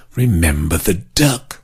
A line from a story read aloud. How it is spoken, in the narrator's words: She whispered again